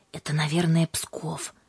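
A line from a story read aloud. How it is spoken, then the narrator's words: Whispered. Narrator (Russian): шепотом сказала Юлька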